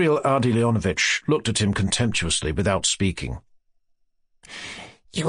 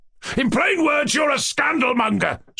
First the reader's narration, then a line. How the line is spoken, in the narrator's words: screamed Ganya